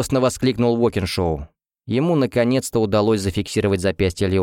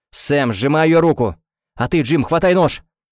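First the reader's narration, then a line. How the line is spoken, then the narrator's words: Frantic shouting. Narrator (Russian): Оператор-постановщик и сам уже кричал почти как сумасшедший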